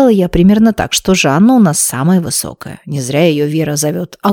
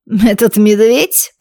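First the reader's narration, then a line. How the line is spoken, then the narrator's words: Contemptuous snort. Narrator (Russian): презрительно фыркнула она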